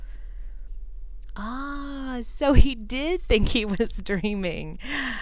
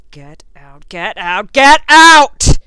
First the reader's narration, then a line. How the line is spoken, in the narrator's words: he roared